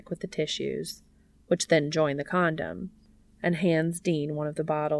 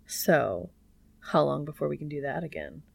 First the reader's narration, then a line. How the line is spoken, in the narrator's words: Cass chuckles